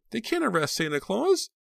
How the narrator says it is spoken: The cries of astonished and alarmed children mixed with the hushed voices of their confused parents

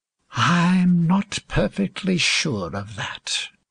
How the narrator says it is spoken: said with a half sigh

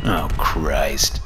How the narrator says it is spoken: big man said

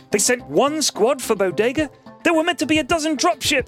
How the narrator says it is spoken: screamed Cadet Jellyface

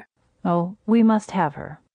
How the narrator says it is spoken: said

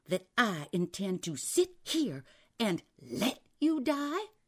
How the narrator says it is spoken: said angrily

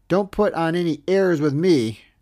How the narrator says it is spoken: John McGraw once shouted

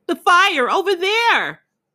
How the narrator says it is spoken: she began to shout again

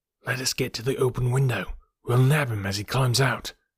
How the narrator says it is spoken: Lestrade whispered

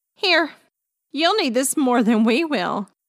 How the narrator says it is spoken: laughed Gabby

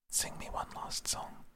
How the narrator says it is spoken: he whispered

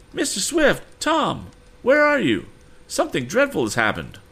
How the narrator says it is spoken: a woman's voice cried out

